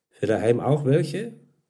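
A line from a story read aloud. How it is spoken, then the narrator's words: Plain question. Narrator (German): fragte Sepp schließlich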